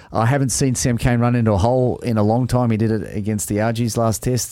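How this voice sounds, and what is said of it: Australian accent. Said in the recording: “don't worry about the Aussie accent.”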